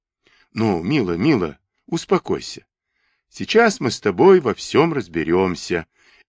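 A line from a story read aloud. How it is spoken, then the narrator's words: Quiet, soothing, as to child. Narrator (Russian): тихо сказал, как говорят, закапризничавшему ребенку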